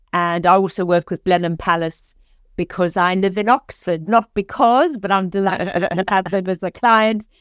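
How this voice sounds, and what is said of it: South African accent. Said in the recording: “as you can hear from my accent, I am originally South African”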